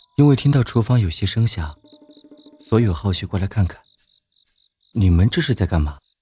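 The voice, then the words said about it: Gentle, mild speaking voice. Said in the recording (Chinese): “一道温和的声音”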